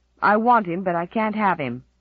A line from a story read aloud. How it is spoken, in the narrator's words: snapped Roddy